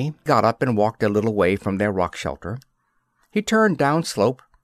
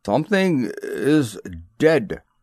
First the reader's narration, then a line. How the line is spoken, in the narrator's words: he said slowly